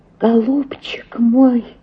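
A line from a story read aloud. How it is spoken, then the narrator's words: Sobbing. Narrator (Russian): зарыдала Оленька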